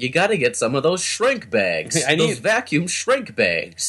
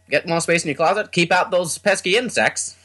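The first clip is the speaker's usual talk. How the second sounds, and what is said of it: Put-on New England infomercial accent. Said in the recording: “every infomercial person has a New England Maine accent.”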